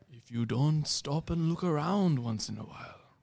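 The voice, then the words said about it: Botched impression drifting into Indian accent. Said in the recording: “I completely botched the accent. I just turned Indian.”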